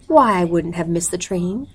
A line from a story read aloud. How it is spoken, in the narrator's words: explained calmly